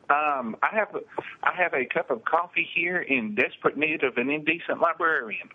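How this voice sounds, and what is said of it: East Texas accent. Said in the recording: “You have the best accent. ... Piney Woods, East Texas ... I've stuck with it all my life”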